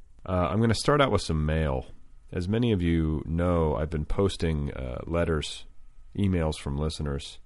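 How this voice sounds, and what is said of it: Tired, fatigued voice. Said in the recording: “Can you hear it in my voice? Can you hear the fatigue?”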